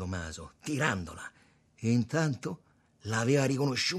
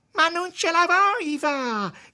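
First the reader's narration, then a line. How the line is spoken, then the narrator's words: Whiny girlish shout. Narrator (Italian): gridava la donna, con una voce da ragazzina, facendo la piagnarella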